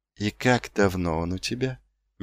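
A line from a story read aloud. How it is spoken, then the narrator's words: Gentle. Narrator (Russian): мягко спросил он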